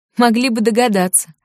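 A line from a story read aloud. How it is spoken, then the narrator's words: Laughing. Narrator (Russian): засмеялась Теа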